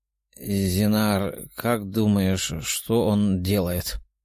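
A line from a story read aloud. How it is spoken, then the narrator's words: Quiet question. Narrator (Russian): тихо спросил лорд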